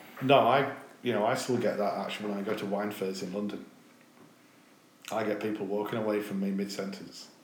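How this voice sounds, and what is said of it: Northern English accent. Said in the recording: “you sound like a farmer from, the north... I've got a northern accent”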